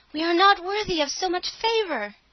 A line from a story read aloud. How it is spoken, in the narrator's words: the sisters fell down on their knees before her and cried